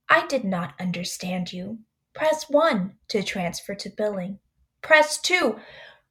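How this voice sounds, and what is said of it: Imitates an automated robot phone voice. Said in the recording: “the lady robot voice”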